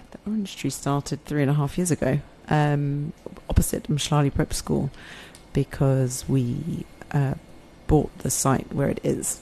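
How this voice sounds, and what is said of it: English accent. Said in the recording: “English accent”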